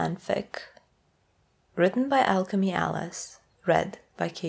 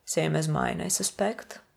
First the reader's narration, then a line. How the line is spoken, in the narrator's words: Napoleon replies, as evenly as he can